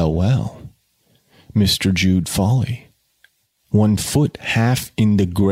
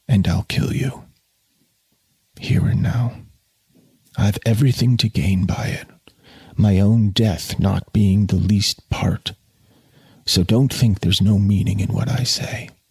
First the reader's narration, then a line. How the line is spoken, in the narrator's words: whispered